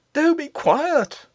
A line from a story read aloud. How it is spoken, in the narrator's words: cried in a whispered shriek